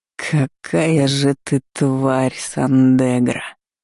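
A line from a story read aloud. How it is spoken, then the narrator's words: Hissed with feeling. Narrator (Russian): С чувством прошипел дракон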